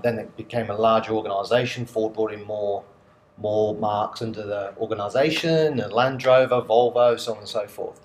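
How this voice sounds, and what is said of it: English accent from central England. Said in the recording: “you probably gather from my accent quite quickly that I'm not a local boy. So originally from the UK, a place called Coventry in central England.”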